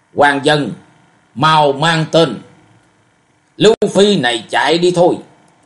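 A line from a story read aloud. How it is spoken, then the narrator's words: Loud barked shout. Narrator (Vietnamese): Một trong bốn võ sĩ quát to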